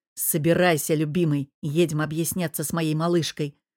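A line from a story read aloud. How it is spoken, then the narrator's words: Growled. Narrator (Russian): прорычал я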